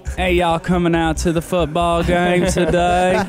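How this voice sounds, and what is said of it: Put-on Texan accent. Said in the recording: “you do a Texan impersonation ... That sounds more like a Big and Rich to me than anything else ... That's a definitely Texas for you”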